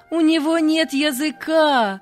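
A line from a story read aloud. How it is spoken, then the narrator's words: Children shouting loudly. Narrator (Russian): громко закричали ребята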